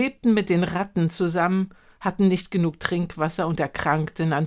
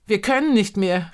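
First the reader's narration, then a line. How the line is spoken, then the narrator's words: Calling out. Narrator (German): rief ich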